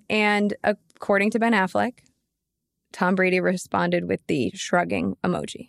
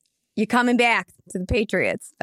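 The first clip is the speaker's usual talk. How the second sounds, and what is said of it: Bad put-on Boston accent. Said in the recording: “That was a horrible accent.”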